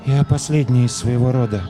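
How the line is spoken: Girl's muffled voice. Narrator (Russian): глухим голосом проговорила девочка

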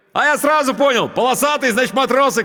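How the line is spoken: Shouting over engine noise. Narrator (Russian): крикнул он, стараясь перекрыть шум мотора

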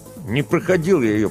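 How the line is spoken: Through clenched teeth. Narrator (Russian): процедил он сквозь зубы

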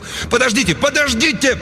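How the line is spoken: Yelling. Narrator (Russian): Кент завопил

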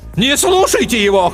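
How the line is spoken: Brave shout. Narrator (Russian): храбро крикнула Ландстрейчер

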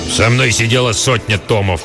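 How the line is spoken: Old man growling. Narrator (Russian): прорычал старый

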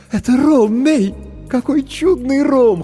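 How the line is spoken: Laughing loudly. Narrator (Russian): хохотала Маджента

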